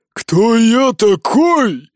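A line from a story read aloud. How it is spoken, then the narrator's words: Roared. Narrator (Russian): взревел Ури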